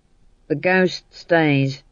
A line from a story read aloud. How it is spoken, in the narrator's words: said Howell sullenly